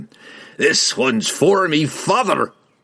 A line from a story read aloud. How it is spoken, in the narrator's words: he cried